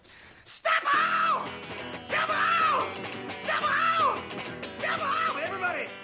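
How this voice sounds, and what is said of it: Heavy metal falsetto shouting. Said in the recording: “heavy metal falsetto”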